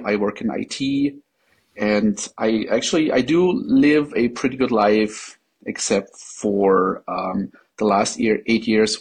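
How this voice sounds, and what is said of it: German-accented English. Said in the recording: “as you can tell by my accent. I am not a native English speaker. I'm from Germany”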